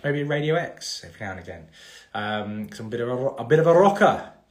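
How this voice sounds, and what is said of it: Doubtful put-on Welsh accent. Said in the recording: “Don't know why I had to do that in a Welsh accent, but there we go. If that even was a Welsh accent.”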